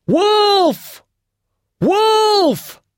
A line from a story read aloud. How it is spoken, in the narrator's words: at the top of his voice